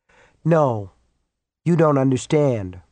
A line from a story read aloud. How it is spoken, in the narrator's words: Rose said calmly